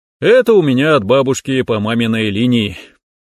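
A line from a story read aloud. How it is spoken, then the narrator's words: Exaggerated sigh. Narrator (Russian): утрированно вздохнул я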